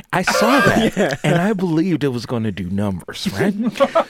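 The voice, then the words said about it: Put-on radio voice. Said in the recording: “This is my radio voice.”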